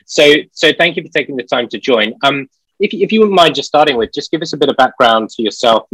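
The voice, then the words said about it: British accent. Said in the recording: “obviously a British company like myself, yes. Hence the accent.”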